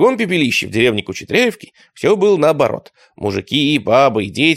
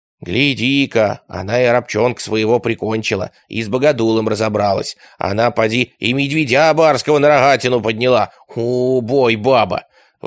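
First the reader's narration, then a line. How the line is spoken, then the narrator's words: Admiring women. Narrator (Russian): Восхищались обитательницы Кучетряевки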